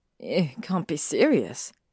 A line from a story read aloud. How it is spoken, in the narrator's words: she muttered, wanting to hide in her embarrassment